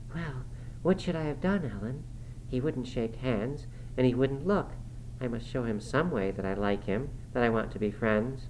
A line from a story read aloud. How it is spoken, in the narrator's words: she blushed and whispered